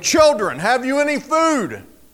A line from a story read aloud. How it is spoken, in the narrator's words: he called out to them